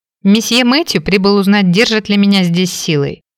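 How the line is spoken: Angry explanation. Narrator (Russian): пояснила, сердито взглянув на констебля

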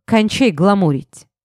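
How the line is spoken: Angry snort. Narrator (Russian): зло фыркнул Алмазов

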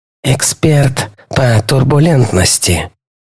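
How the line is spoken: Quiet. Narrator (Russian): тихо произнес Диксон

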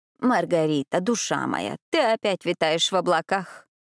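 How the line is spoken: Old woman grumbling. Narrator (Russian): проворчала старая графиня

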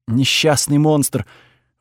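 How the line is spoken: Breathed out. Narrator (Russian): выдохнула госпожа Сише

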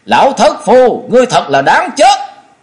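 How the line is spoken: Angry shout. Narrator (Vietnamese): Cốc Thế Biểu không ngờ đối phương giở chiêu độc này, tức giận thét lớn

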